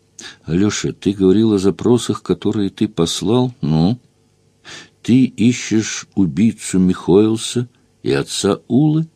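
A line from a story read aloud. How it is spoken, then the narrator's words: Breathless, hesitant, fearful question. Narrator (Russian): Он спрашивал запышливо, неуверенно, будто боялся, что я его обругаю и прогоню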